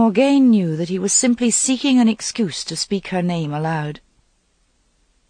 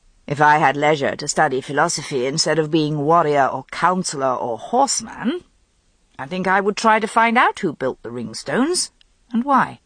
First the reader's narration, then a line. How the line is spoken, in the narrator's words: Lancelot said lazily